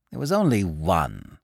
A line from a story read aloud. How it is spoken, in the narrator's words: said Claude coldly